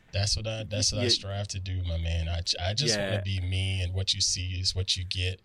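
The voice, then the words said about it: Long, slow Southern drawl. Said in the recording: “I have a long, slow Southern drawl ... I love your accent.”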